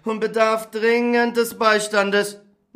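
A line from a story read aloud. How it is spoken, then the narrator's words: Exclaimed. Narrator (German): rief aus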